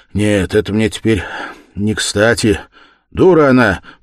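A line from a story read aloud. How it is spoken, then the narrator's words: Loud. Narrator (Russian): прибавил он громко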